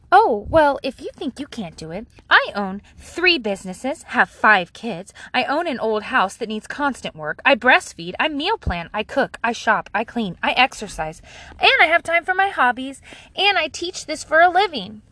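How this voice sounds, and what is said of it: Mocking silly reading voice. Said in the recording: “read it in my dumb voice.”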